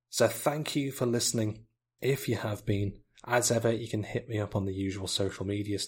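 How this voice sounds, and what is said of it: Slightly strained, fading voice. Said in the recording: “You can probably hear slightly that my voice is going a little bit. I've been talking for about an hour non-stop”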